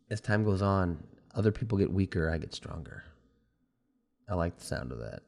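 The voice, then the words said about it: Weak voice, sounds sick. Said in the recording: “my voice is not that strong because I'm fighting a cold”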